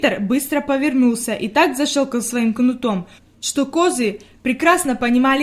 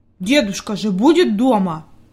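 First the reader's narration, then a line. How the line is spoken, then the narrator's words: Angry grumble. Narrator (Russian): буркнул Питер сердито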